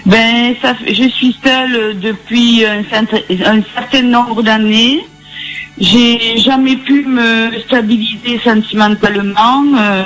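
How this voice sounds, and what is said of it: Sing-song regional French accent. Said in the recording (French): “votre accent chantant”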